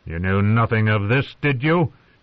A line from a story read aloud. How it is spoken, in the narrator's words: He said to John coldly